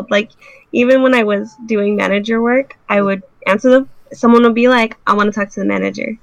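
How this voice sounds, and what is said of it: Childlike, young-sounding voice. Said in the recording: “I sound like a child... You sound like a child.”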